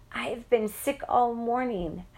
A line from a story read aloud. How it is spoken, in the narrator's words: moaned